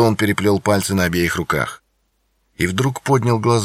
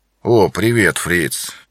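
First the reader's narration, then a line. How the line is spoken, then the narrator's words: Apologetic mumble. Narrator (Russian): извиняющимся тоном пробормотал он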